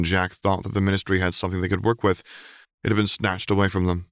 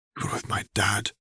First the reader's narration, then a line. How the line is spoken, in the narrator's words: he whispered